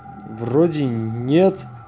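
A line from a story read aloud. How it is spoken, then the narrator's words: Uncertain. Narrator (Russian): неуверенно отозвался Хаус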